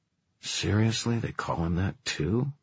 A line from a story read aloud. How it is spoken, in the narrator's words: Kit muttered under his breath